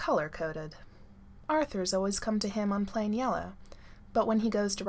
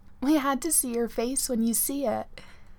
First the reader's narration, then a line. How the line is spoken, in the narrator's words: Gwen gasps